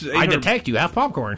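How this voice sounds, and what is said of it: Robotic machine voice. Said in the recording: “robot voice”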